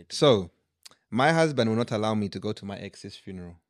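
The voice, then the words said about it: Put-on Ugandan accent. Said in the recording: “I read it in a Ugandan accent ... We are now flying to East Africa.”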